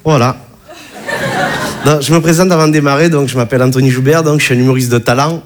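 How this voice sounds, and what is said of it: Regional French accent. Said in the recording (French): “tu as vu mon accent, hein, je viens pas de Bagnolet”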